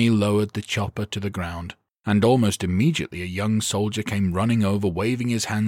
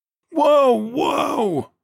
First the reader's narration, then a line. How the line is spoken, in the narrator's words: the soldier screamed